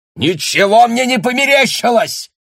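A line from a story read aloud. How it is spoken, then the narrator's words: Shouted. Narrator (Russian): крикнул Бруно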